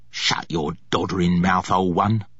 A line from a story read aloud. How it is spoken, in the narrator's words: he snarled nastily